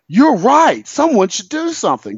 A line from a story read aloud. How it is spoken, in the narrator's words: real dramatically